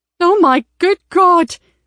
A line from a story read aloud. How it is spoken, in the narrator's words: exclaimed Wendy